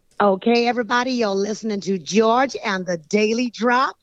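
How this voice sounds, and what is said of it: Put-on American accent imitating a singer. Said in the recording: “American accent. Come on, let's hear a little bit of this American accent ... Tina Turner style ... Well, that's very good”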